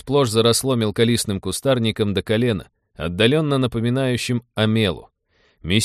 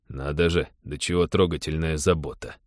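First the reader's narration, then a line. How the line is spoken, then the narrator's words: Ironic grumble. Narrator (Russian): иронично проворчал Тед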